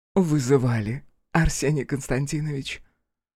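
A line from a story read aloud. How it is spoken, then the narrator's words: Languid, slightly husky. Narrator (Russian): Томным, слегка хриплым голосом спросила она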